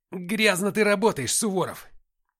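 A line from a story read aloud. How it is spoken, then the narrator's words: Hissed. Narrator (Russian): прошипел мангуст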